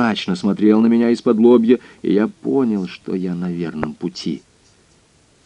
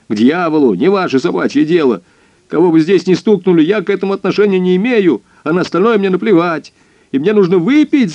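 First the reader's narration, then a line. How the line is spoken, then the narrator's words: Sudden yell. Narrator (Russian): заорал он вдруг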